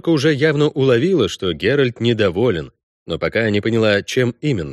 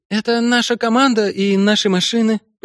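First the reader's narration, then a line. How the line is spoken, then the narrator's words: Shaky explaining voice. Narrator (Russian): пояснила та дрогнувшим голосом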